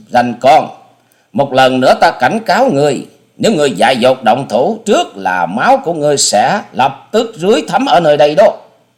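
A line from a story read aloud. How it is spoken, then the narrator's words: Thunderous shout. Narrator (Vietnamese): Nàng dục quát lên như sấm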